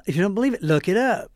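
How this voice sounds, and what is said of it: Put-on Southern accent. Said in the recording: “do that little Southern voice”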